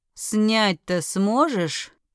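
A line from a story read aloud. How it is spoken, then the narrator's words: Deep bass voice. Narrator (Russian): пробасил Скай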